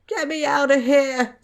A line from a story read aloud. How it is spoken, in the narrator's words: Tom whimpered